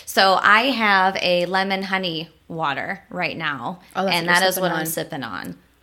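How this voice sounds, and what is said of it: Itchy, hoarse voice. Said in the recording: “I woke up with like this itchy kind of hoarse voice”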